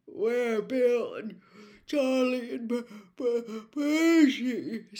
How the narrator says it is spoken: said George, failing to stifle a huge yawn

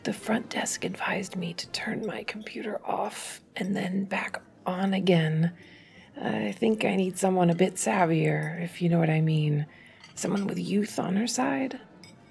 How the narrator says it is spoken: Adam leaned toward her and nearly whispered

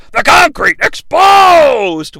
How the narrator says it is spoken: Vince yells

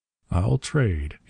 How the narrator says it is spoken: he said softly

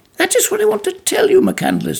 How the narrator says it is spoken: he cried

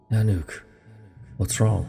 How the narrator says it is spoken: Ethan said in a soft, nervous tone

